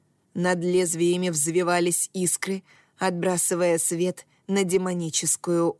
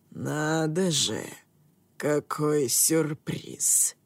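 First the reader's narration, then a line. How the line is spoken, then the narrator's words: Quiet menacing growl. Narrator (Russian): Тихо и угрожающе прорычал Хакаэмона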